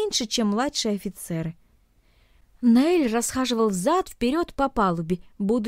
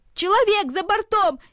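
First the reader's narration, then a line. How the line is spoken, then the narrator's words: Crowd shouting. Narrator (Russian): кричали одни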